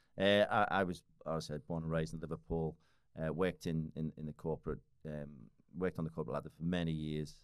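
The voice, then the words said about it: Liverpool (Scouse) English accent. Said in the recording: “you could probably hear the accent, right? ... He's from Liverpool, from like north. ... usually ask me if I'm Irish or I'm a Scottish. We have a similar kind of, almost kind of rough kind of side to our accent.”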